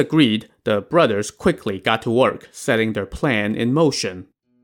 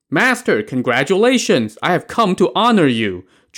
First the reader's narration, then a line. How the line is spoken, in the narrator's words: Zhu Fu shouted